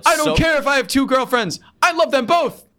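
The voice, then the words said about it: Loud, blunt imitation of another person. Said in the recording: “That's a very good impression... A lot of screaming... a lot of like very succinct sentences... a very blunt like... like a water balloon hitting a wall”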